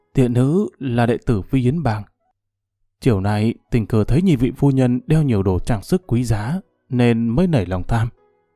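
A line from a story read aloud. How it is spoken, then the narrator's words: Stammering young woman. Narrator (Vietnamese): Thiếu nữ ấp úng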